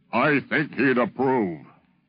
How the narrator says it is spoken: he said in that beautiful, booming voice of his

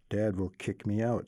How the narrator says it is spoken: she mutters

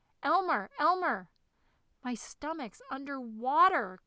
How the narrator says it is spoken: cried the dragon, suddenly waking up

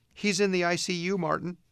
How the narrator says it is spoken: one of the women said in a trembling voice

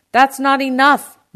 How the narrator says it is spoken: my uncle shouted

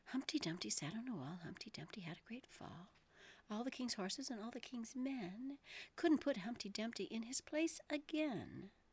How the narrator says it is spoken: softly repeated to herself

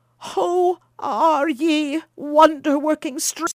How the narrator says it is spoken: cried, even more bewildered than his wife had been

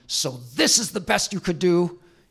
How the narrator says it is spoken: through clenched teeth, he snarls at him

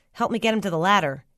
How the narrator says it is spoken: he said

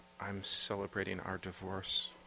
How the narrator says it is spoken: he whispered

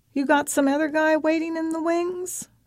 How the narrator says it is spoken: Maureen merrily scowls

